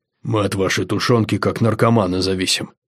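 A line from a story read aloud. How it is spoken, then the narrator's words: Quiet. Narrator (Russian): тихо сказал Угрх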